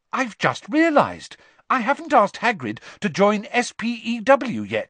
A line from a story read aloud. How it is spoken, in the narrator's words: she said brightly